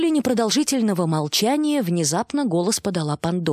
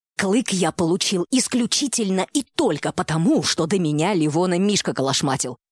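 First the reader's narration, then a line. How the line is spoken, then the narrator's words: Almost hissing reply. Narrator (Russian): почти зашипел в ответ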